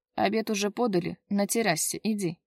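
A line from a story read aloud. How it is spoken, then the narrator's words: Commanding tone. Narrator (Russian): закончил приказным тоном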